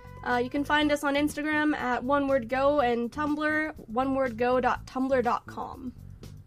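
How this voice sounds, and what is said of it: Little announcer voice. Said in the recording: “you get this little announcer voice. It's so adorable”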